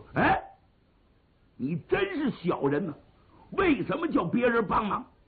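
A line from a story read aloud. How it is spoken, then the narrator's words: Sudden shout. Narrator (Chinese): 胡大海冷不丁喊了一声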